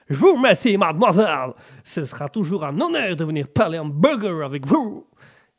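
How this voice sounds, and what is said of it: Comic character voice with accent. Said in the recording (French): “Ce perso me fait mourir de rire. Une peur à cet accent.”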